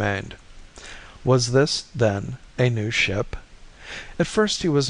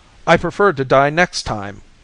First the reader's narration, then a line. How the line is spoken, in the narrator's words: shouted